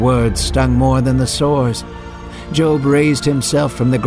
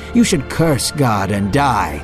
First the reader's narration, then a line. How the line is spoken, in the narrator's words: scoffed at him and said